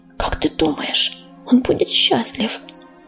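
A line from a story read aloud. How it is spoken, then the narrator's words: Whispered question. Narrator (Russian): шепотом спросила Белочка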